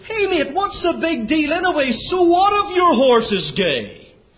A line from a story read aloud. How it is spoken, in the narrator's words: he shouted